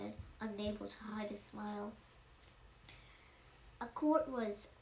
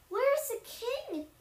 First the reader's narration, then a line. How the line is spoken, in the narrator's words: many of them cried